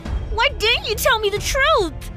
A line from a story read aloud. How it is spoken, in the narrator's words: I screamed